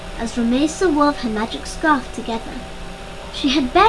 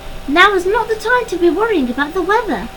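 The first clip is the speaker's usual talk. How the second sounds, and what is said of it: Squeaky owl character voice. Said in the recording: “Sabina's squeaky voice called”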